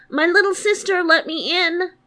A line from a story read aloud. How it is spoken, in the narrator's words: he called out